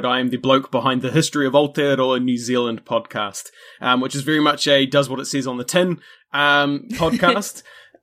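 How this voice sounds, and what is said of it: New Zealand accent. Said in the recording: “by, you know, my accent and stuff, you probably gather that's where I'm from”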